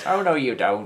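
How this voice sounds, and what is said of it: Put-on northern English nurse accent. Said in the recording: “This is my generic northern nurse accent.”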